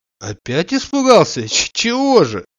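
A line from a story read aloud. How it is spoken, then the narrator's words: Laughing. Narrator (Russian): Засмеявшись, сказал Штольц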